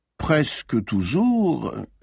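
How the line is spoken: Drawling voice. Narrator (French): fit-il d'une voix traînante

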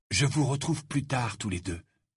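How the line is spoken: Breathy whisper. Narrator (French): dit Harry dans un souffle

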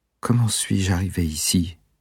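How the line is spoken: Weak female voice. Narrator (French): fit la jeune femme d'une voix faible

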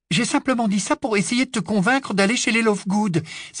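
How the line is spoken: Exasperated exclamation. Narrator (French): s'écria Hermione, exaspérée

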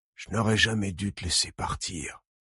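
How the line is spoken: Man murmuring. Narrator (French): murmure-t-il

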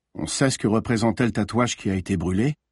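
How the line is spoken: Flat toneless voice. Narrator (French): demanda le commissaire d'une voix blanche

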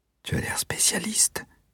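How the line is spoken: Whispered. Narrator (French): chuchota Valéria

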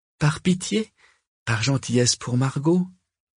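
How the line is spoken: Timid. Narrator (French): lança timidement Corentin

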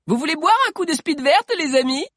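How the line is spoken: Sudden shout. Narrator (French): cria soudain Sabi

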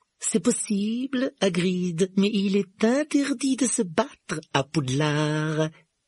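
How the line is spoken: Silky retort. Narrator (French): répliqua Rogue d'un ton doucereux

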